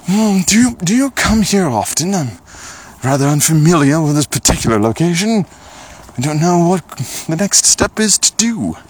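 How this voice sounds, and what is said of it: Fancy posh character voice. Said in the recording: “I wanted to be a fancy lad ... that was my voice ... doing a character voice”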